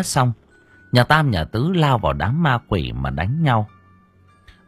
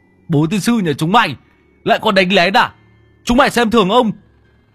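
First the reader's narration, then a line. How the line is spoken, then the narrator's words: Angry shout. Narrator (Vietnamese): Lão Tứ quát lên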